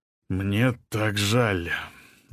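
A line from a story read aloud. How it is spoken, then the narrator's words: Strained, forced out. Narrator (Russian): выдавил Алин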